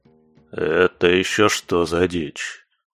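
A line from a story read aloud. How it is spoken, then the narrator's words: Astonished mumble. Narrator (Russian): пробормотал куратор, изумленно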